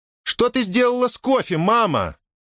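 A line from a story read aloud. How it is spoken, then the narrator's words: Shouted. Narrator (Russian): крикнула она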